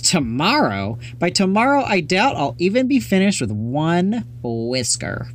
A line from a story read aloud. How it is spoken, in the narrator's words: BB laughed